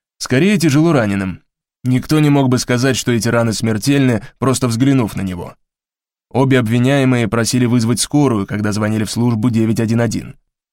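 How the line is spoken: Formal official tone. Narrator (Russian): официальным тоном ответствовал Сомс

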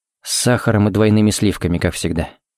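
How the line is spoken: Quiet speech. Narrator (Russian): сказал тихо

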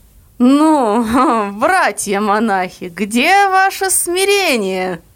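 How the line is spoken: Ringing voice, chuckling. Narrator (Russian): сказал звучно с хохотком

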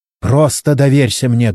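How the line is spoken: Barked. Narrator (Russian): гаркнула на него Чен

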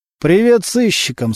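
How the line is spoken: Weak voice. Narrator (Russian): слабым голосом сказал Субботин

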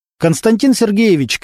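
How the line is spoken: Shouting. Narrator (Russian): крикнул Немировича старшина

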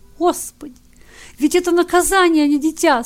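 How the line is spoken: Tearful mother. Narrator (Russian): Сквозь слезы проговорила пришедшая в себя мать

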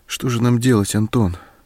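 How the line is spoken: Frightened asking. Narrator (Russian): испуганно вопрошала она

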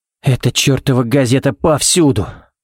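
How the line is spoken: Sighing. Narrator (Russian): вздохнул Баллок

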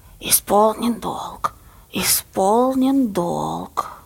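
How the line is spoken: Hissed prompt offstage. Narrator (Russian): Баба Лиза шипела из-за кулис

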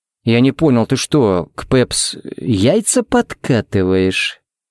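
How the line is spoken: Menacing drawl. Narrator (Russian): протянул он угрожающе

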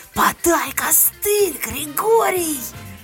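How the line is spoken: Howling shout. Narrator (Russian): я взвыла и, крикнув

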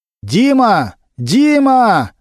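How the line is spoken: Loud shout. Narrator (Russian): громко крикнул Немирович

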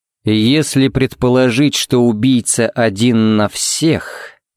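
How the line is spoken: Thoughtful drawl. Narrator (Russian): протянул Харри задумчиво

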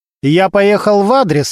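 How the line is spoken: Commanding, authoritative tone. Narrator (Russian): начальственным тоном сказал он

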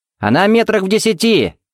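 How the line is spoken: Shouted. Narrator (Russian): крикнул Тед

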